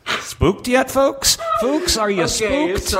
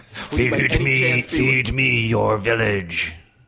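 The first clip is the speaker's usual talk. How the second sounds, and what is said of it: Monster voice. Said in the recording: “monster accent ... that wasn't a real monster. That was me doing a voice.”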